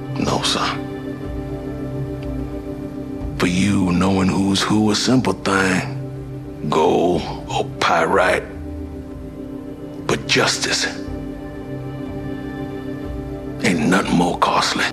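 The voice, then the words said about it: Distinct historical Black American accent. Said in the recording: “this accent is very distinct ... how Black Americans spoke during that particular time period in that region”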